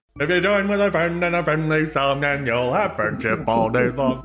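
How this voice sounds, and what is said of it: Creepy animatronic character voice. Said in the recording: “you just doing that was terrifying. ... that was a very good impersonation of it. It was effective.”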